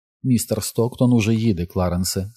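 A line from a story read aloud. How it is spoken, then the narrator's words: Calm speech. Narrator (Ukrainian): спокійно мовила Джесика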